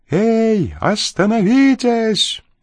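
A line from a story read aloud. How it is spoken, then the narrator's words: Shout. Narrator (Russian): закричал один из преследователей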